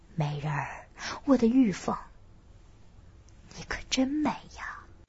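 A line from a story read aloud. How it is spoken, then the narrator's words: Soft, smug. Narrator (Chinese): 我越想越得意，轻声说道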